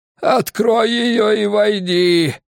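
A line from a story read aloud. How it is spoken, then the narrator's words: Creaky voice. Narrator (Russian): проскрипел Удулай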